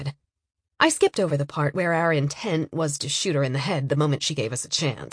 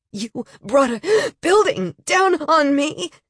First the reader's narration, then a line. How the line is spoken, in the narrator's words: wheezed